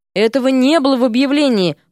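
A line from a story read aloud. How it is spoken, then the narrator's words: Timid lone voice. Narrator (Russian): робко заметил чей-то одинокий голос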